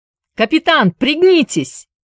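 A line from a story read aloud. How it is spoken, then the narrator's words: Quick warning shout. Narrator (Russian): успел крикнуть Джаред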